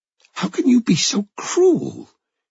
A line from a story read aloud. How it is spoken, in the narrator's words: Joy exclaimed